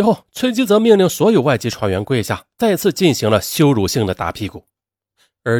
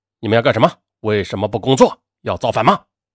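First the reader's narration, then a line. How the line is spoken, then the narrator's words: Angry scolding. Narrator (Chinese): 崔吉泽见状怒骂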